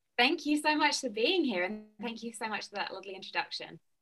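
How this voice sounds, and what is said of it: British accent, slightly Americanized. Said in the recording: “has a really cool accent ... people back in the UK that my accent has slowly got more American ... my accent still sounds very like distinct”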